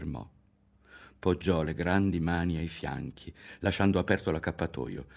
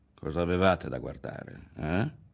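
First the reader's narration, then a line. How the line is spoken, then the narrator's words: Strangely low, hoarse voice. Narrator (Italian): ripeteva con quella voce stranamente bassa, roca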